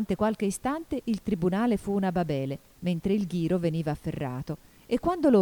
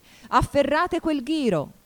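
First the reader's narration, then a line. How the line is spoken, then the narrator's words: Queen shouting. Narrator (Italian): gridò la regina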